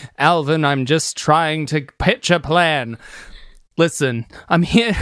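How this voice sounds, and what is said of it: Usual voice. Nothing is said of it.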